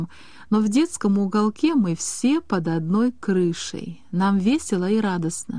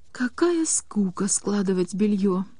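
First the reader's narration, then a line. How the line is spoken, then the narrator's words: Moaning. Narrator (Russian): стонала Таня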